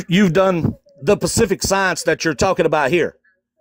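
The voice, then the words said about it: Speaker's own non-native accent. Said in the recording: “Sorry if my accent offends you. ... It's an accent.”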